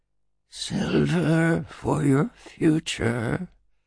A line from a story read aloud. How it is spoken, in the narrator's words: he said, his voice like a dry wind whispering through winter branches